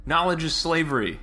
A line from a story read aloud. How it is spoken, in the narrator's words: he shouted, as he and Mitch retreated